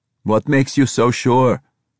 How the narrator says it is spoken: Yusef shouted above the roar of wind

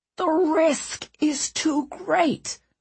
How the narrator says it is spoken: Ratcliffe hissed

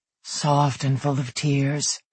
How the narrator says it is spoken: he murmured

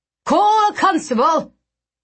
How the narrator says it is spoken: Agrippa shouted

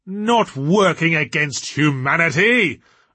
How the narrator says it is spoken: roared Diablerie, incredulously

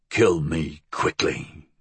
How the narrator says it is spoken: the old man hissed

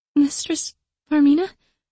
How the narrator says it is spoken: I asked weakly

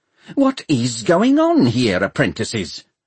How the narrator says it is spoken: asked Nimmo crossly

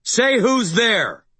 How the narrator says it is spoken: I shouted at the warehouse

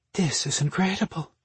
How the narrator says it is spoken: Marina breathed

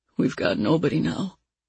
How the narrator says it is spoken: he mumbled

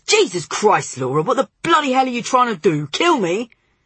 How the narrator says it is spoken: causing him to yell angrily

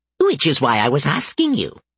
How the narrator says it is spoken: Bob cackled

